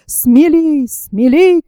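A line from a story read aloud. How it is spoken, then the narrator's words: Young man shouting. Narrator (Russian): кричал молодой капитан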